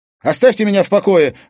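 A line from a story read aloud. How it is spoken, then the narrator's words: Shouted. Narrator (Russian): выкрикнула она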